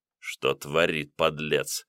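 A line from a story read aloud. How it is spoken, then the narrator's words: Admiring mutter. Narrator (Russian): пробормотал Никишин, невольно восхищенный столь рисковым поступком бандита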